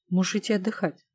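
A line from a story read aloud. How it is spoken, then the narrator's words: Calm, without anger. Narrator (Russian): спокойно произнес Алукард Дорин, без намека на злость или раздражение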